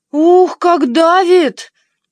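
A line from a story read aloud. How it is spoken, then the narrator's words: Wailing needle. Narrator (Russian): завопила штопольная игла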